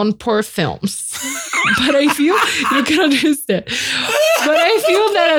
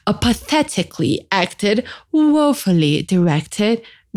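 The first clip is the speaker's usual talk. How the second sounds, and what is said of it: Attempted British accent. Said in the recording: “that was my attempt at a British accent.”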